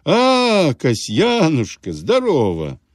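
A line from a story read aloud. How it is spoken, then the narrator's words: Grinning exclamation. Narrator (Russian): при виде старика он осклабился, воскликнул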